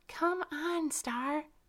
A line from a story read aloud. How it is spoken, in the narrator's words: exclaimed Violet Iris